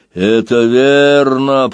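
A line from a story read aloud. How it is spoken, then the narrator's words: Roared. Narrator (Russian): проревел другой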